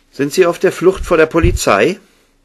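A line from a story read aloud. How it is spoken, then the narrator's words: Sharp voice cutting silence. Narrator (German): Mary Ellens Stimme durchschnitt scharf die Stille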